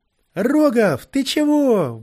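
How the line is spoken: Shout. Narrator (Russian): выкрикнул Киря

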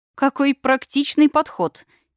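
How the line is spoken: Giggling. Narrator (Russian): хихикнула я

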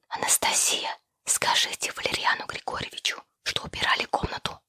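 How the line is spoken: Whisper. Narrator (Russian): шепотом сказала я

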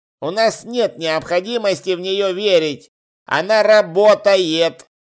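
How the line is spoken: Grumbled reply. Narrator (Russian): проворчал в ответ Чудакулли

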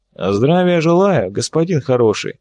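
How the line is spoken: With a mocking snort. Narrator (Russian): Косухин хмыкнув прямо в лицо гостю

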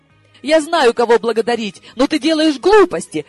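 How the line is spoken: Girl's snapping retort. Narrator (Russian): огрызнулась девица

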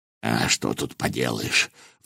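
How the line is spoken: Sigh. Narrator (Russian): вздохнул Волох

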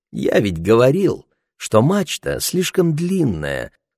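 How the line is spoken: Sweet cooing. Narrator (Russian): сладким голосом проворковал Ларри

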